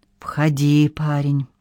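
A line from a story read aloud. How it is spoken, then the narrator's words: Strange whisper. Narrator (Russian): проговорил Дел странным шепотом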